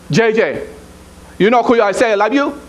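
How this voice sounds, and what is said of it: Imitated accent. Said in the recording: “That's how she said it, with an accent”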